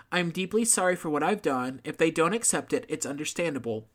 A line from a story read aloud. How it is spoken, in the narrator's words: Pettaway said